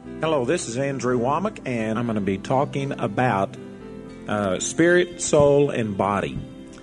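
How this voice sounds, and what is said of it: Southern American accent. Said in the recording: “This guy has a southern accent.”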